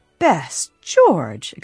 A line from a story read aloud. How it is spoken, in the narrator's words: exclaimed Elizabeth Rawley